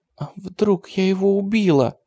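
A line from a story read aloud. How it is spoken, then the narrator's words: Sobbing. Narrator (Russian): Женька всхлипнула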